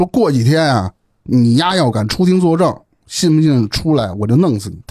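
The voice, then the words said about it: Put-on Beijing accent. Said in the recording (Chinese): “他拿北京话说的。... 是我他妈前面都用北京话讲的”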